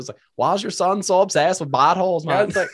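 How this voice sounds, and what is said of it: Mixed Swedish-Minnesota accent with country twang. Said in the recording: “I'm trying to go back to the fucking accent. ... I can't even do it. ... so many mixes of piece of people in there. It's like Swedish, then you got some Minnesota, and then some you got like, the country, like a little bit of country accent in there too, a little bit of country twang.”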